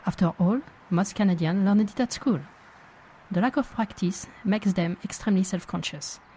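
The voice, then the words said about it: French accent speaking English. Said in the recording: “my funny pronunciation ... my accent”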